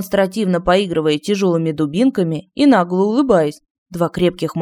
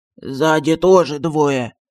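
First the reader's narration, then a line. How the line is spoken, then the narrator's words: Hoarse report. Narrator (Russian): севшим голосом доложил Мафусаил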